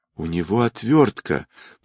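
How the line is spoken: Moaning, collapsing woman. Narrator (Russian): простонала женщина, медленно оседая на пол

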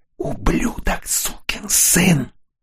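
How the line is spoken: Menacing whisper in ear. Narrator (Russian): шепнул ему на ухо мучитель

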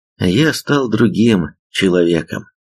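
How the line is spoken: Sigh. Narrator (Russian): вздохнул Га

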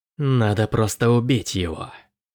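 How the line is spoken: Hissed. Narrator (Russian): прошипел Дроан

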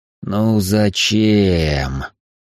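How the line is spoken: Groaning. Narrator (Russian): простонал

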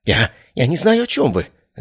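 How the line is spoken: Babbling. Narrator (Russian): залепетал он

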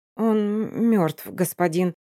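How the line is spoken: Stammering young woman. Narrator (Russian): заикаясь, сообщает девушка

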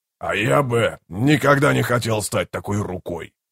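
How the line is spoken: Growled. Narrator (Russian): прорычал Брут

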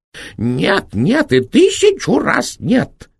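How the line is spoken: Shrill shout. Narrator (Russian): визгливо закричал директор

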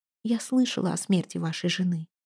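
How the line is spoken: Whisper. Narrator (Russian): прошептала она

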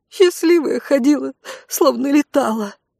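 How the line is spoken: Sobbing woman. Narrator (Russian): всхлипнула одна из женщин

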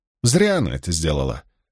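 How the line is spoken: Cold voice. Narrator (Russian): продолжала Авиенда холодным голосом

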